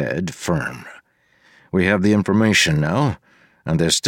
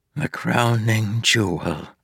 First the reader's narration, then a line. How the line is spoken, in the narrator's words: she said softly